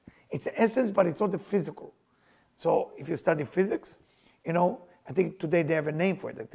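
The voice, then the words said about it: Non-native English accent. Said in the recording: “How you say it in English? ... My accent.”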